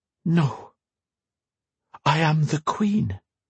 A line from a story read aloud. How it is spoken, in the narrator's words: she whispered